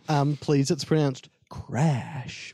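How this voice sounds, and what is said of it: Imitates another person's voice. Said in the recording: “my impression of... Of Dave Matthews. I'm very bad at impressions.”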